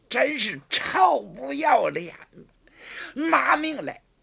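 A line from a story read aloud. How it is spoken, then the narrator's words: Roaring. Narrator (Chinese): 虎妞大吼一声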